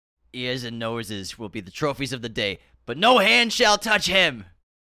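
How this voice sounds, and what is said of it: Imitates another person's voice. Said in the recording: “pretty good Daniel Day impression ... It was actually pretty shitty.”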